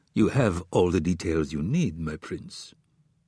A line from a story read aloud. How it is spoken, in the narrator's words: David replied in an even voice